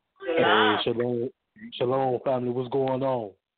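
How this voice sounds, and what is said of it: Deep voice. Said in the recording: “With that deep voice.”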